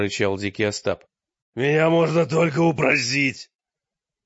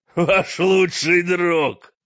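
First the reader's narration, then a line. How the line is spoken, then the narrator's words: Laughing. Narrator (Russian): сказал с хохотом Остап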